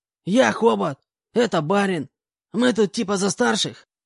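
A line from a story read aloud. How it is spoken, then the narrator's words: Hoarse voice. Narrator (Russian): представился обладатель хриплого голоса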